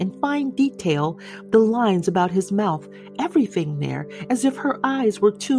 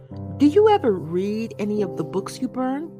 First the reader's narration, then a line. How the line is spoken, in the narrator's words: He laughed